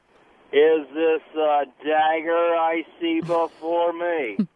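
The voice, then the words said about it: Imitates John Wayne's voice. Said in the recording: “his imitation of John Wayne playing Hamlet ... I can actually kind of do it. It's not as good as Robin”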